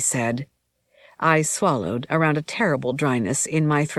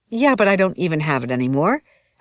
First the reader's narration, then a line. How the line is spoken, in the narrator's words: I assured her quickly